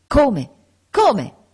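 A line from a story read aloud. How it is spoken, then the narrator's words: Exclaimed. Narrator (Italian): esclamò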